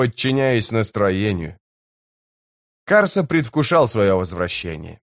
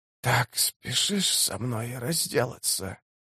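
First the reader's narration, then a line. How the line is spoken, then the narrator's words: Dry, rattling voice. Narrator (Russian): спросила сибаль сухим, дребезжащим голосом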